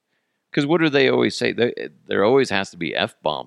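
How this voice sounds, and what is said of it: Usual voice. Nothing is said of it.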